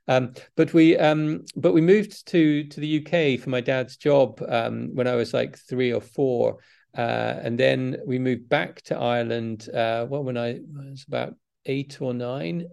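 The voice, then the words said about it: Mixed Northern Irish and English accent. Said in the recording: “my accent is all over the place, probably, but you know, I picked up an English accent,”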